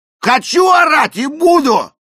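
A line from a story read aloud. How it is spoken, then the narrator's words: Loud yelling. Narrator (Russian): заорал Эрик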